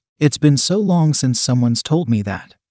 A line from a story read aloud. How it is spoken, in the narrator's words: she said